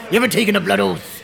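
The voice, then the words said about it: Pirate-style Cornish accent. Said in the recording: “I'm a pirate now ... I think you're Mr. Cornish ... All pirates are Cornish. Do a pirate accent, they do a Cornish accent.”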